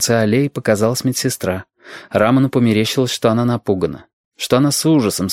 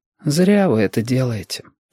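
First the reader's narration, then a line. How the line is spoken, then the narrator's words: Weary. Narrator (Russian): сказала Павла устало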